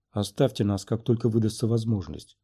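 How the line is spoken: Quiet. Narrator (Russian): произнес он тихо

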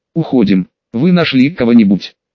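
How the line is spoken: Plain. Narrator (Russian): спросил Тенза

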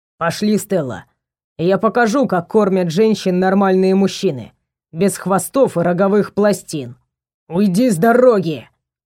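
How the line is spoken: Growled. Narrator (Russian): прорычал Варгор на Эманора

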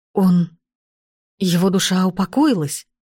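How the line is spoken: Trembling voice. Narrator (Russian): Дрогнувшим голосом спросил он

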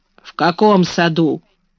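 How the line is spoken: Sullen grumbling. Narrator (Russian): проворчал Бен, опять став угрюмым

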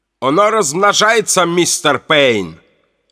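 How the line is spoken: Exclaiming. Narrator (Russian): воскликнул Шрёдер

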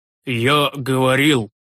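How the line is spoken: Wheezing old priest. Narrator (Russian): просипел седой священник

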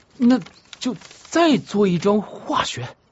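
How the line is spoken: Gritting teeth, determined. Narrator (Chinese): 童子咬了咬牙说

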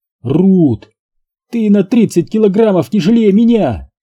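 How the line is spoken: Hysterical shout. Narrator (Russian): истерически выкрикнула

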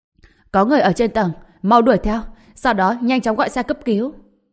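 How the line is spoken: Urgent shout. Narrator (Vietnamese): Trần Bình vội hét lên

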